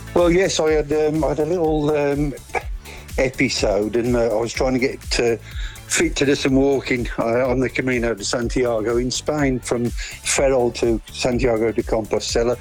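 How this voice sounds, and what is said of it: Polish-accented English. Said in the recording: “I can tell by the off-air accent that you're not from there originally ... originally from Warsaw”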